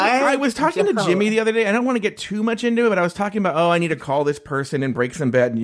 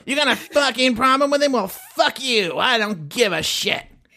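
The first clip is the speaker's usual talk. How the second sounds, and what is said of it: Imitates another person's voice. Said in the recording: “That could be my new impression of Brett.”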